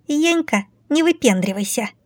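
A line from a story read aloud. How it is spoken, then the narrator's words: Squeaky voice. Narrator (Russian): пропищалась дверь летяга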